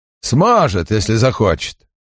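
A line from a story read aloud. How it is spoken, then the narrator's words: Scoffing snort. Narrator (Russian): хмыкнул Стерджис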